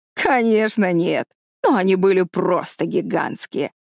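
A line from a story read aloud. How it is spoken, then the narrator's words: Laughing. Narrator (Russian): рассмеялся дядя Клондайк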